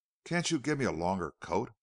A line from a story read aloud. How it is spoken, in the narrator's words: faltered Joan